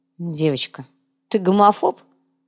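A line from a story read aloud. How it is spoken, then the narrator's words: Stern question. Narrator (Russian): строго спросил Томба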